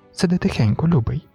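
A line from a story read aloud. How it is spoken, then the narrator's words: Whispered reply. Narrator (Ukrainian): знову пошепки відповіла Джейніс, напружено вдивляючись у темряву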